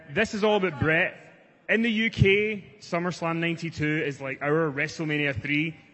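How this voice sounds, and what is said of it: Scottish accent. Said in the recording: “I do have a Scottish accent.”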